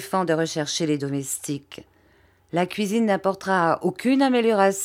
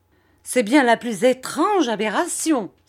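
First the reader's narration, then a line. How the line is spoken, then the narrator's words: Exclamation. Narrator (French): s'écria Miss Murdstone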